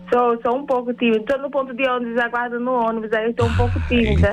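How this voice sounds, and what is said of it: Northeastern Brazilian accent. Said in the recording (Portuguese): “esse sotaque gostoso ... Pensei que você tava no Nordeste.”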